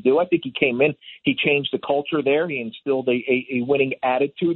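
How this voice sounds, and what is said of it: Slight Philadelphia accent. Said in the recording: “am I detecting some Philly in that accent a little bit?”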